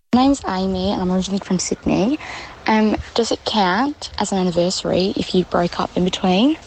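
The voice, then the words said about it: Australian accent. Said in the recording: “my Australian lover... I do like an Australian accent... you sound delightful”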